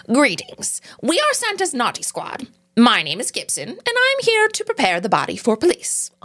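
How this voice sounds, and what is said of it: Cartoon elf character voice. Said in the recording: “I have a really good elf voice... Honestly, great elf voice... It was really good.”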